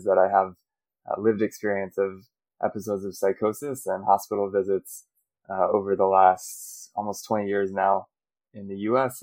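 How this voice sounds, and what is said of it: American accent. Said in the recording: “So I'm American, you can hear from my accent”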